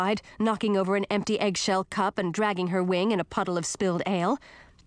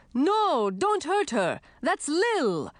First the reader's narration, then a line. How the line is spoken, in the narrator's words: Garrett shouted